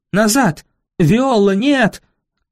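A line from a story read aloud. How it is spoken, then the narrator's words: Shouting. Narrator (Russian): кричала мне мистрис Койл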